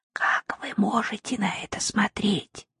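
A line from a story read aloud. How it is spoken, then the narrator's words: Whispered question. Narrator (Russian): шепотом спросила она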